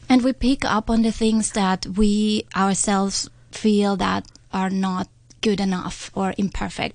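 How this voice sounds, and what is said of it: Austrian-accented English, non-native speaker. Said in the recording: “I'm not a native speaker, how my Austrian accent”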